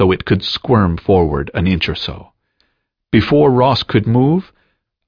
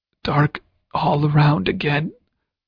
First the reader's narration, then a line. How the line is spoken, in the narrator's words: protested the croak